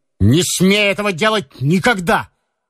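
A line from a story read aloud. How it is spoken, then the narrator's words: Shout. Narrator (Russian): крикнул он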